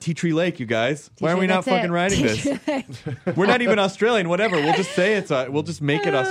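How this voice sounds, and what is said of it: Usual voice. Nothing is said of it.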